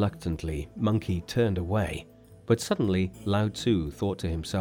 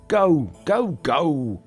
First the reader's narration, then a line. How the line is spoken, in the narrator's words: screamed Lao Tzu